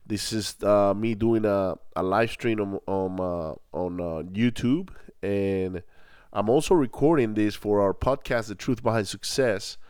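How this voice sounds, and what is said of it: Congested, nasal voice. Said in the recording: “my runny nose and my funny voice ... allergy”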